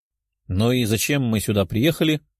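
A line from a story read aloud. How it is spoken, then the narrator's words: Grumbling. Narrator (Russian): ворчала Лиза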